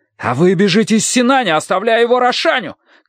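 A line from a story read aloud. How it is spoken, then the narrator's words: Angry shout, small man. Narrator (Russian): крикнул лучник, маленький разъяренный человек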